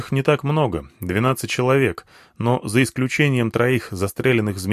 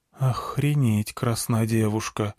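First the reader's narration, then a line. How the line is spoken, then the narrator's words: Quiet, soldier. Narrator (Russian): тихо сказал кто-то из бойцов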